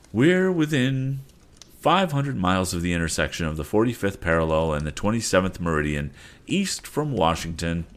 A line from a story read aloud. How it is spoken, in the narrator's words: said the captain